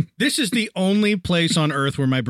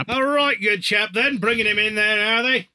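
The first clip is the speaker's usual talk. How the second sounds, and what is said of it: Put-on British accent drifting Australian. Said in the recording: “my British accent, any one of my many British English accents that I could do, immediately turns into Australian”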